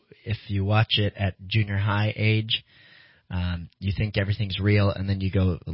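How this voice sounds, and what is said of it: Usual voice. Nothing is said of it.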